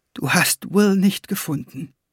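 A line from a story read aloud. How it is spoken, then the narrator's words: Whispering. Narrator (German): flüsterte sie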